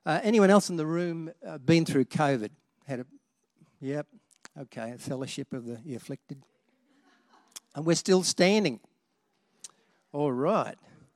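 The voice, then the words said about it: Husky voice. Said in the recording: “My voice is a little bit husky”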